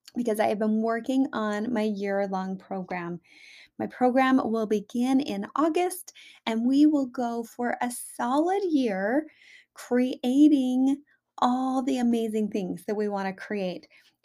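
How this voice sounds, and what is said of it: Excited, enthusiastic voice. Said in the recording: “hear the excitement in my voice”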